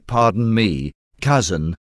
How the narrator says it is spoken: she added in a calmer voice

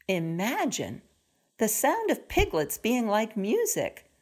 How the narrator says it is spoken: chuckled

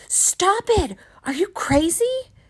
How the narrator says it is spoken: She screamed at me

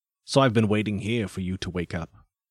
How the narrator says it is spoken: said coldly

